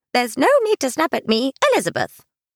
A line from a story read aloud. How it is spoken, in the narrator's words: Jet said in a snippy tone